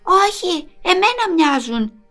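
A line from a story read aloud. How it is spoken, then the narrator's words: Insistent. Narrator (Greek): επέμεινε η μαμά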